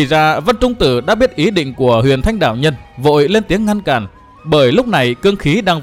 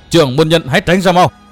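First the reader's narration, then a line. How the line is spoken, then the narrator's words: Loud shout. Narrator (Vietnamese): Vân Trung Tử quát to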